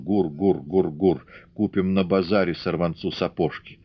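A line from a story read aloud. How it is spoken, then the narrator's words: Sing-song muttering. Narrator (Russian): бормотал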